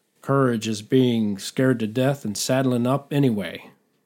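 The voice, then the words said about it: Attempted John Wayne impression. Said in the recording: “John Wayne famously said ... I don't think I nailed his accent.”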